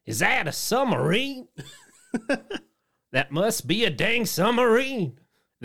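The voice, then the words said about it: Very southern twang. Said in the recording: “in a very southern twang”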